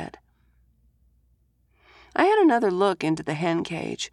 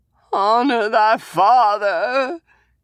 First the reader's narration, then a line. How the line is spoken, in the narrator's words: he whined